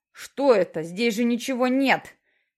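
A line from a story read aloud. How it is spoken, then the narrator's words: Furious shout. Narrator (Russian): кричал он разъяренно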